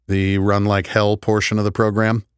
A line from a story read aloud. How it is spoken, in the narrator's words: I said with a small laugh